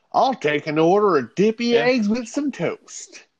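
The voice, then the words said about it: Put-on Pittsburgh accent. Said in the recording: “That's my best Pittsburgh accent. ... People be able to tell you're not from here”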